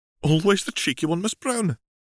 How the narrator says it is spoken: laughed McGonagall

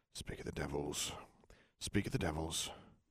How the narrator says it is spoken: Harry mutter

